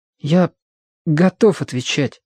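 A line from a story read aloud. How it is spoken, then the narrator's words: Forced out. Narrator (Russian): выдавил Гриша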